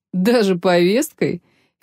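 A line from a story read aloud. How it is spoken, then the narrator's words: Almost laughing. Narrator (Russian): Федерико чуть не рассмеялся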